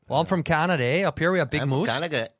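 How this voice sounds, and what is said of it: Put-on Canadian accent. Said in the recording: “Give me another accent. ... Can you do, can you do Canada?”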